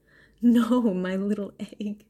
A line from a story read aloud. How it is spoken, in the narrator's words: Naru laughed, affection welling in her again